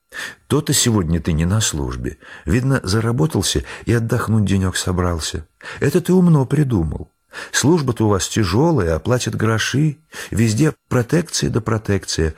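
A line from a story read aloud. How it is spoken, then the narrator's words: Sighing. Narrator (Russian): вздохнула Олимпиада Васильевна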